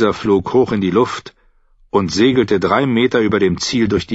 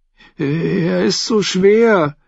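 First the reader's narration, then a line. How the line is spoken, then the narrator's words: Boy whining. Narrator (German): jammerte der fette Junge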